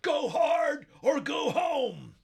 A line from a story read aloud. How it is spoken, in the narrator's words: bellowing